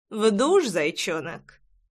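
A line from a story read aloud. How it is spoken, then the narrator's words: Smirking young man. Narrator (Russian): хмыкнул парень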